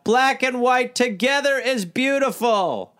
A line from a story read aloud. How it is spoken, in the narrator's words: in tandem, Monroe and Austin would shout